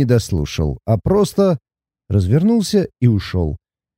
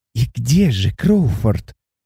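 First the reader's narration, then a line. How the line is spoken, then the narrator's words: Unctuous whisper in ear. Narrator (Russian): елейно шепнула мне на ухо управляющая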